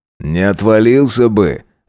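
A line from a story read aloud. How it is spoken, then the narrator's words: Amused grunting reply. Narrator (Russian): ответил он, хмыкнув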